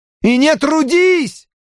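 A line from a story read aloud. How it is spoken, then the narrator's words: Shouting after someone. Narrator (Russian): прокричала Робин ему вслед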